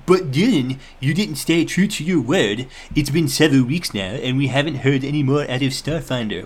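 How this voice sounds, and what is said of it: Weird put-on character voice. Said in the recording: “weird-voiced person ... your weird voice”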